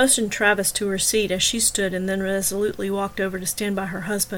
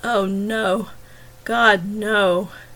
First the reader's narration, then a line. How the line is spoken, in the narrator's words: he moaned